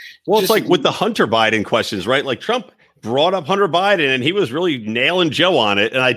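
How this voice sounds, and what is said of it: Usual voice. Nothing is said of it.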